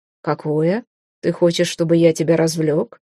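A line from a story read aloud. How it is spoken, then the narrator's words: Smug grunt. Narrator (Russian): Мак хмыкнул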